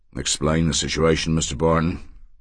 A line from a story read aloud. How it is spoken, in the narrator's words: Thurzo said in his hoarse monotone